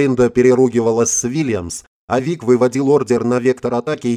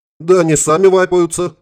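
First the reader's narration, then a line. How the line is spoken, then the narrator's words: Chuckling. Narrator (Russian): хохотнул Гарри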